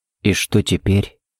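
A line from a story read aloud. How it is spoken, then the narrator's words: Barely audible question. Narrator (Russian): едва слышно спросил Харри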